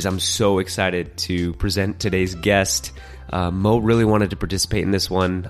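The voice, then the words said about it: Sick, under-the-weather voice. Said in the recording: “You might hear it in my voice. I'm a little bit under the weather today.”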